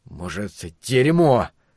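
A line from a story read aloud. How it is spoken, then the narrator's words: Angry. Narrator (Russian): зло бросил Ларри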